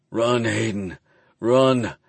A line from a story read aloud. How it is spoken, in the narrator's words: I growl